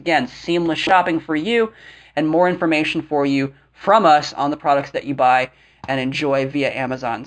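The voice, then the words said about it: Scratchy, sore-throated voice. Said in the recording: “I apologize for my voice this week, everyone, having a bit of a sore throat, a little bit of a scratchy throat this week ... So I do apologize for my voice.”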